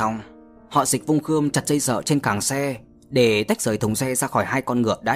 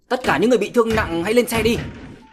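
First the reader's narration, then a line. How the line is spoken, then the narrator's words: Raised voice. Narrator (Vietnamese): Gã cao giọng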